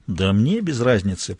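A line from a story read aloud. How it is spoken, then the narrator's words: Grumble. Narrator (Russian): проворчал Мазур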